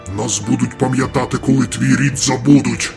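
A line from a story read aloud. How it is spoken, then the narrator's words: Growled. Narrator (Ukrainian): загарчав Хамандер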